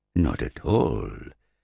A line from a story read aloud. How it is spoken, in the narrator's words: said Ulrich innocently, his voice deep and resonant